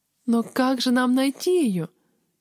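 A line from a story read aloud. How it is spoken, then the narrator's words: Whimpering. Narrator (Russian): захныкала я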